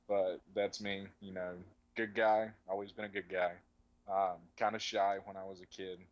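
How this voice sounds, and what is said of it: Mild North Carolina mountain accent. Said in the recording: “I'm from a very small town in North Carolina by the name of Statesville. My parents are from an even smaller town named Piney Creek. So I have some good old mountain heritage in me. So that's where my accent comes from. It's not as bad as it used to be, but you know, when I was a little kid, it was pretty thick.”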